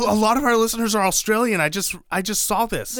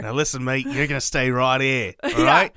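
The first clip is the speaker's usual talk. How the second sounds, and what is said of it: Bad put-on Australian accent. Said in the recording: “My terrible Australian accent. ... It's not your worst accent.”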